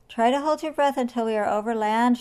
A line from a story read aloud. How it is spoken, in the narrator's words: shouted George